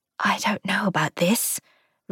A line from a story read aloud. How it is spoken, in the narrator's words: Ruth whispered